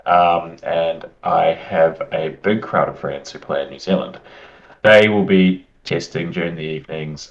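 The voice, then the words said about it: New Zealand accent. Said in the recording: “You might be able to tell by my accent, but I'm from New Zealand.”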